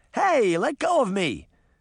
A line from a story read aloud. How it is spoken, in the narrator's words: Daphne shouted